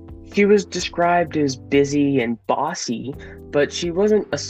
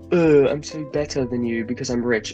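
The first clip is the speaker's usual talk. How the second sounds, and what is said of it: Posh British accent. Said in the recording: “the hint of a posh British accent poked through”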